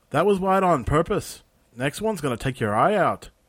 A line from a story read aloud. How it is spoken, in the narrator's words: a young woman's voice called out